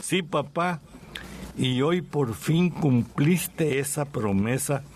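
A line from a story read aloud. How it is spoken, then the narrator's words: Breaking voice. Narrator (Spanish): respondió con la voz quebrada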